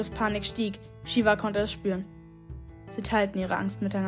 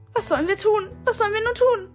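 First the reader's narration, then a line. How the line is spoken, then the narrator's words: Whimpering. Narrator (German): wimmerte Grio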